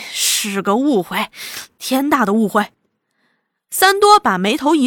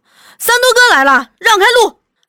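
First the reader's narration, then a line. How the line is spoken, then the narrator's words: Low murmur. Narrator (Chinese): 三福对他低低说些什么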